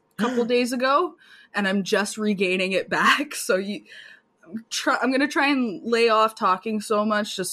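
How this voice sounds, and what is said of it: Hoarse, weakened voice. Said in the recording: “hear it in my voice, but I lost my voice”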